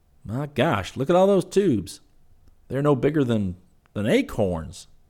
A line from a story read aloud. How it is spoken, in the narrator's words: Scotty exclaimed